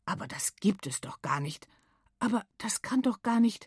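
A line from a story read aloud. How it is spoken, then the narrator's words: Muttered. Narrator (German): murmelt einer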